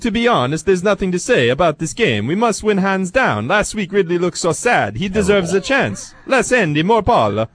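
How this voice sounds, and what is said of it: Attempted Italian accent, Cartman-like. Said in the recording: “should I try to read this in the accent? ... Accent. ... Why do you morph into Cartman when you do that? ... At least I tried an Italian accent”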